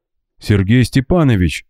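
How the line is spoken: Alarmed exclamation. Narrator (Russian): встревоженно воскликнул он

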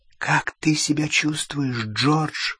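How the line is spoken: Whisper. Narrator (Russian): прошептала миссис Уизли

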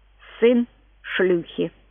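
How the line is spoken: Parrot, distinct and slow. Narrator (Russian): Попугай сказал отчетливо и медленно

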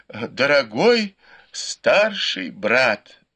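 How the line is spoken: Moaning. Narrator (Russian): вновь простонал Сюэ Пань

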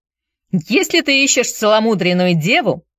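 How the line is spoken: Shouted. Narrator (Russian): закричал джентльмен

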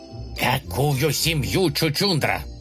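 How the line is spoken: Hissing. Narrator (Russian): зашипел Утес

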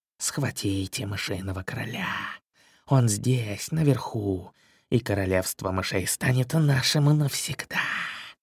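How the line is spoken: Sudden serpent's hiss. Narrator (Russian): Вдруг раздалось шипение белого змея

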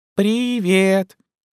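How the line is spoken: Squeak. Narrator (Russian): пискнул пришелец еще раз

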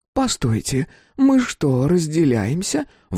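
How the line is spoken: Exclaiming. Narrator (Russian): воскликнула Руф Энн

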